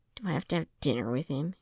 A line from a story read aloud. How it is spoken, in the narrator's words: Ace grumbled